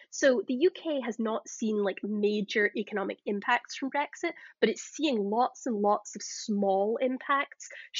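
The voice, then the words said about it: Scottish Glasgow accent. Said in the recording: “if you can't tell from my accent, I'm Scottish originally. I came from Glasgow.”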